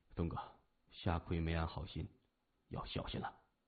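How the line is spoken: Whispered. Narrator (Chinese): 三眼儿趁机轻声说

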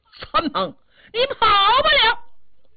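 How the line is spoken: Shouting from behind. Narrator (Chinese): 后边还是喊

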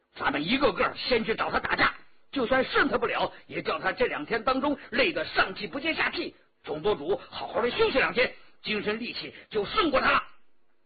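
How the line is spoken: Shouting. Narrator (Chinese): 张晋叫道

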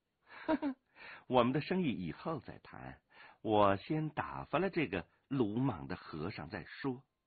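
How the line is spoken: Coquettish laughing. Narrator (Chinese): 飞鸿笑娇笑说

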